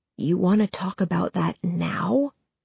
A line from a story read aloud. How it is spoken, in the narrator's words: He whispers back